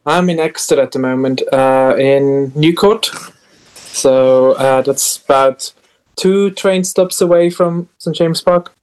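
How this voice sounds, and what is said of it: Swiss accent. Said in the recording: “What is your accent, may I ask? ... I'm Swiss.”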